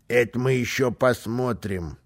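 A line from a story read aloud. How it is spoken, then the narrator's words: Calm. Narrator (Russian): спокойно сказал Карлсон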